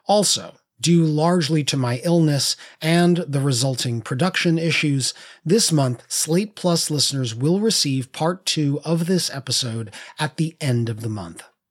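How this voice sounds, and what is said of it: Raw, sick-sounding voice. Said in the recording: “I've been fighting off the bug that's going around this holiday season. So my voice is a little raw on this episode.”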